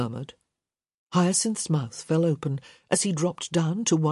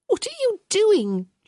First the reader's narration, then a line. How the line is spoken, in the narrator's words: she squeaked